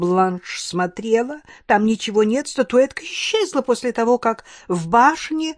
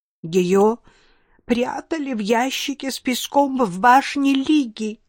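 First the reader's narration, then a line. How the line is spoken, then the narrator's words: Tearful. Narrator (Russian): сквозь слезы сообщила мадам Вассерман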